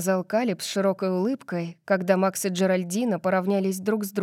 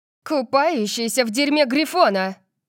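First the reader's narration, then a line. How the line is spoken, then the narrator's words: Shouted reply. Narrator (Russian): крикнула она в ответ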